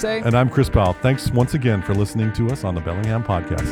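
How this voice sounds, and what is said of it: Radio announcer voice. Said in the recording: “That was my announcer voice again.”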